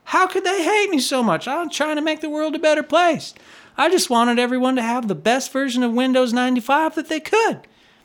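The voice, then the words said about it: Mocking impression of disliked people. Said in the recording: “That's not how Bill Gates talks, but that's my impression of of people when I don't like them very much.”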